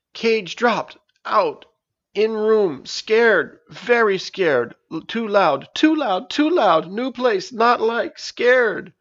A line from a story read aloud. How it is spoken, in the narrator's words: cried